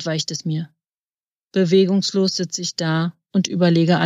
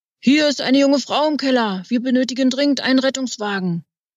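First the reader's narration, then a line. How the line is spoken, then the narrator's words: Officer calling up from below. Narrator (German): ruft ein Beamter von unten herauf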